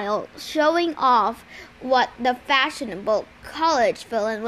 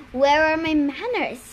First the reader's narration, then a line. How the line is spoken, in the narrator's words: Luke said smoothly